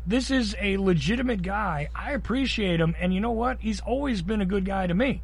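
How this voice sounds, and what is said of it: Georgia Southern accent. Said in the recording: “I'm here in Georgia. You can tell from my accent”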